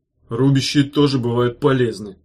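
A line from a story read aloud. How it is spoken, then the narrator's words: Grumbling. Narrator (Russian): проворчал Меф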